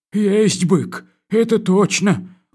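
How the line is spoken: Glum admission. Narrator (Russian): уныло признался комендант

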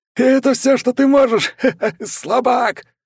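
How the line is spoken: Commander laughing. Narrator (Russian): смеялся комбат

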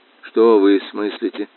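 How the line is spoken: Very quiet. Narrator (Russian): Он говорил очень тихо

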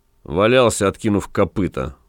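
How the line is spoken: Gloomy. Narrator (Russian): мрачно ответил ротмистр

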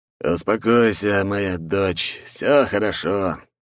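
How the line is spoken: Tired father. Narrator (Russian): сказал уставшим голосом отец

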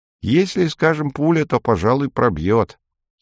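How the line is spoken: Plain. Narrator (Russian): сказал Селен

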